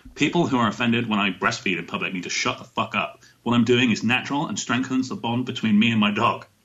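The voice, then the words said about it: Put-on British male accent. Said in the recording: “That was your Radtoria accent, right? ... I'm assuming that she's a 20-something British male. ... That was pretty good.”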